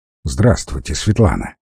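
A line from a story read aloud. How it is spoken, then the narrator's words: Gloomy reply. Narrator (Russian): ответил он мрачно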